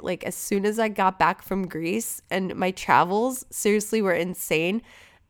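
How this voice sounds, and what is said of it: Congested, stuffy-nosed voice. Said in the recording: “sorry if I sound congested.”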